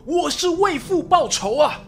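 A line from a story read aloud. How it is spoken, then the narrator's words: Loud cry. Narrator (Chinese): 他一边大声呼喊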